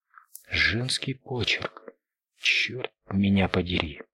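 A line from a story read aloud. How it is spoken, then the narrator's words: Whisper. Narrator (Russian): прошептал Дью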